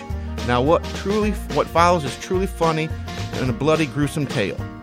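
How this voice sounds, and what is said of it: Put-on accent, possibly West Virginian. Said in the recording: “I can't get rid of this accent ... No, that's a very good play. ... Are you from West Virginia by any chance? Or from that area?”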